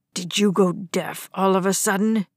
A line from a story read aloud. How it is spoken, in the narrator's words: Dad growled